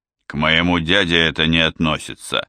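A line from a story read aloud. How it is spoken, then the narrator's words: Gloomy. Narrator (Russian): мрачно сказал Галло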